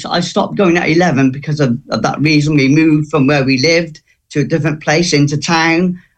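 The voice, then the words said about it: Emotional, somewhat strained voice. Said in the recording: “you can probably tell my voice, I still struggle a bit today ... I am quite a shy, a quite emotional person, as you can probably hear by my voice.”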